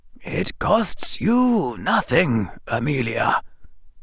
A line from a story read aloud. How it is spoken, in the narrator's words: the old wizard said quietly